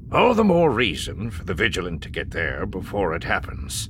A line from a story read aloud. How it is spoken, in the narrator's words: Vakif said grimly